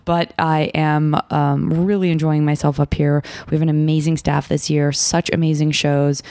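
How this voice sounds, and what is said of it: Husky, tired voice. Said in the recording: “My voice has the characteristic Sketchfest huskiness, which means I am not getting enough sleep”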